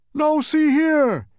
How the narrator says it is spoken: cried the startled bug

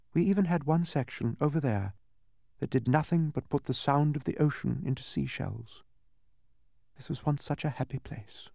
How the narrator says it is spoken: said sadly

